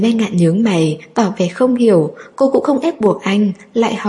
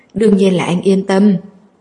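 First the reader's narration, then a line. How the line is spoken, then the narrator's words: Smiling. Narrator (Vietnamese): Anh mỉm cười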